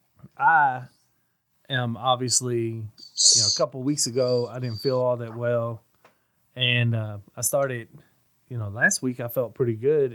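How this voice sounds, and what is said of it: Sick, congested voice. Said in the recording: “You gotta excuse my voice. ... I had all this stuff going on in my head and in my throat”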